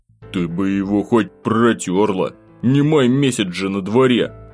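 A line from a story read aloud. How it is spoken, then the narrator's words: Grumbling, shivering. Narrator (Russian): проворчал я, поежившись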